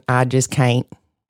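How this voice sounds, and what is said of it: Southern US accent. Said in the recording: “in my southern accent”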